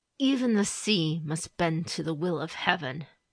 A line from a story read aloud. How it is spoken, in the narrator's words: she answered Raitsugu through clenched teeth